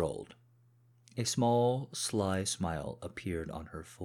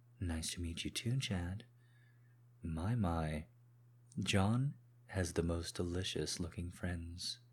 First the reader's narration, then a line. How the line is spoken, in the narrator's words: she purred